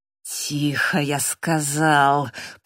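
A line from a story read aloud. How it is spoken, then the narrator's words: Menacing hiss. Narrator (Russian): прошипел Дэниел с угрозой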